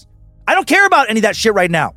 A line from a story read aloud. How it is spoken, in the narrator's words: Justine snapped